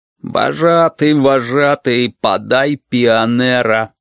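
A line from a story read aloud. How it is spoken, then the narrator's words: Drawn out syllable by syllable. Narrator (Russian): по слогам протянул Толик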